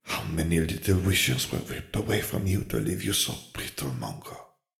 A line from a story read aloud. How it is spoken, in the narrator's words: She sighed